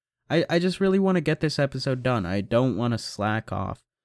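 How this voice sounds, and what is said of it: Tired, low-energy voice. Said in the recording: “I feel dead. ... I'm so tired. You can probably hear it in my voice.”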